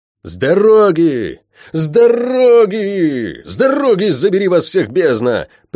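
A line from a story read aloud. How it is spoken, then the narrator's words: Yelling while galloping. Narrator (Russian): орал я, летя по среднему городу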